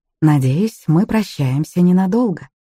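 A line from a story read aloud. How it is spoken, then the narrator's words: Polite social tone. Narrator (Russian): сказал он светским тоном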